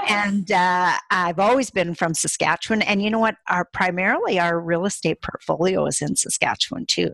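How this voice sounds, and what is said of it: Accent resembling Minnesota speech. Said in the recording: “your accent reminds me a little bit of how Minnesota ... talk”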